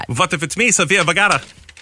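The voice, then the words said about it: Bad impression mixed with German villain accent. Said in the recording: “That's a really bad Sofia Vergara ... a mix accent between an Indiana Jones Nazi and a Sofia Vergara ... It's not very good ... my Indiana Jones bad guy accent”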